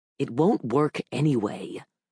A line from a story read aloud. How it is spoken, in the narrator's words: I growled to the Rowan guy